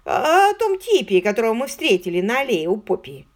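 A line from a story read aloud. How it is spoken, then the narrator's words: Grumbling. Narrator (Russian): проворчал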